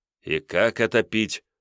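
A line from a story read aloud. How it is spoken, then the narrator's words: Grumbling. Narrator (Russian): ворчал Михаил Илларионович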